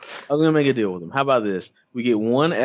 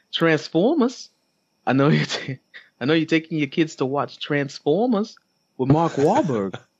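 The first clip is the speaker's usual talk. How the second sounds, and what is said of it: Put-on Texas Bostonian accent. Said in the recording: “in my Texas Bostonian accent”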